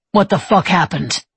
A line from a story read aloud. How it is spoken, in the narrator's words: Levi snapped